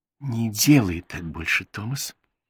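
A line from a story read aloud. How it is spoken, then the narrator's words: Whisper. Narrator (Russian): прошептала Бет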